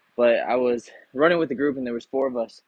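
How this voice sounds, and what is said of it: Out of breath. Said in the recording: “probably out of breath”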